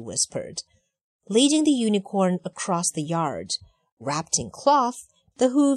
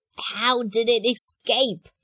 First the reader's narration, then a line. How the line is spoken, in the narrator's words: He yelled at his nervous soldiers